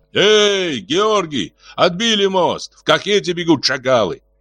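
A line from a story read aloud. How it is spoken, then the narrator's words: Shouting from afar. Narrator (Russian): кричал еще издали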